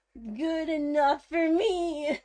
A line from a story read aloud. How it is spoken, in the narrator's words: Varian replied excitedly